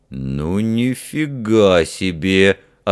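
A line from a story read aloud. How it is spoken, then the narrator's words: Stunned deep bass voice. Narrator (Russian): ошеломленно пробасил один из гвардейцев Джуды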